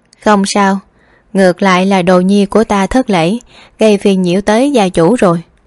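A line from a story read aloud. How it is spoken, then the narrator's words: Soft smiling. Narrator (Vietnamese): Hy Loan khẽ mỉm cười nói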